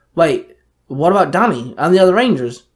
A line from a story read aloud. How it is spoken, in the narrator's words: Max snapped